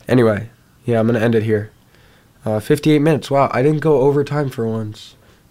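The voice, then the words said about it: Harsh, sick-sounding voice. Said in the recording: “I'm a little sick, if you can't tell. I apologize if my voice sounds a little harsh.”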